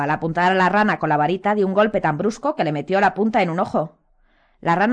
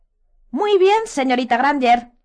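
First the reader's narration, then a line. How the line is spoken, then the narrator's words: Startling squeaky little voice. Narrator (Spanish): dijo el profesor Filwich con su vocecilla chillona que sobresaltó a los tres amigos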